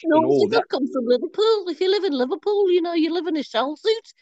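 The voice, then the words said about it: Put-on Scouse Liverpool accent. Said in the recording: “you're known for sort of the Scouse accent ... That was what I was trying to do. Not particularly good impression.”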